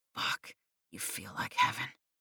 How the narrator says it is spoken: he breathed

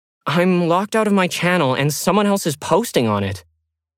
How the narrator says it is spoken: Lauren blurted out

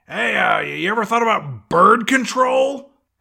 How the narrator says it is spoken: Red yells out at this one mom

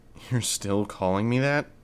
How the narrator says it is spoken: Regent chuckled

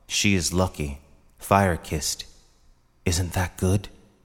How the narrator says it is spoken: she whispered

